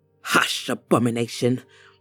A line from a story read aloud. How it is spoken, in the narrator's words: the woman said through clenched teeth